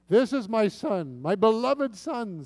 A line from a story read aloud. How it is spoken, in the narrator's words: says God